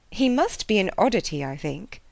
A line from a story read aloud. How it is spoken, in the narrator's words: said